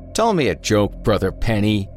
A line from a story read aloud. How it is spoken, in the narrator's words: he bellowed, fully expecting laughter to break out at any moment